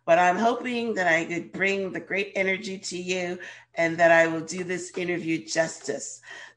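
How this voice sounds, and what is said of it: Voice sounds sick, under the weather. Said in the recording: “Excuse my voice, I'm a little under the weather today”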